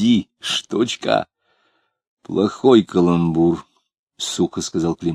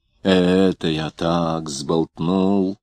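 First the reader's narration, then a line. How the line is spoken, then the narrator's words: Mumbling. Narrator (Russian): забормотал он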